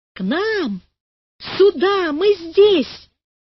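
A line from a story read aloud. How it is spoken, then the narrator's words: Children shouting. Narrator (Russian): кричали ребята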